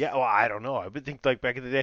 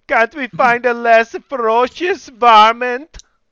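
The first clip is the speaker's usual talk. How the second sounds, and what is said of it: Put-on unidentifiable accent. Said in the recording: “what accent was that exactly? I don't know what accent that was.”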